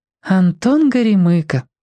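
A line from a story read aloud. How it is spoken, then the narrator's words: Sighing. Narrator (Russian): вздохнула Римка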